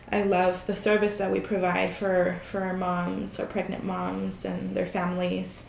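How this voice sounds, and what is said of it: Raspy, sick-sounding voice. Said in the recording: “you have a really great podcast voice ... It's because I'm sick ... She has a rasp.”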